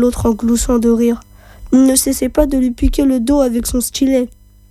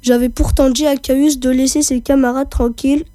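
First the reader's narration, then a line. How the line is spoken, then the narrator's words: Grumbling irritably. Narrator (French): grommela Mucius avec humeur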